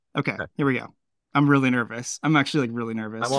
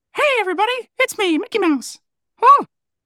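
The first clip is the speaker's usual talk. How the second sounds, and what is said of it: Mickey Mouse cartoon voice impression. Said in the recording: “I feel like I should try my hand at a Mickey impersonation. ... Honestly, it's not terrible.”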